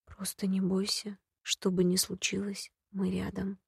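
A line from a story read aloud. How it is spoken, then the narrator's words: Sigh, barely audible. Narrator (Russian): Алвин вздохнул, наклонился еще ниже и едва слышно проговорил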